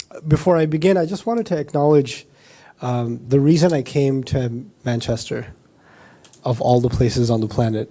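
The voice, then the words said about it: Voice sounds unwell, still recovering. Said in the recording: “you could probably hear from my voice, it's not my usual singing voice, so that I'm still kind of recovering”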